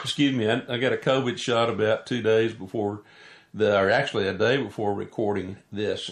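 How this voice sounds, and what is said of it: Cracky voice. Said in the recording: “My voice is a little cracky today.”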